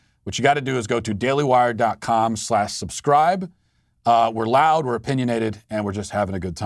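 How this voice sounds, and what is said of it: Usual voice. Nothing is said of it.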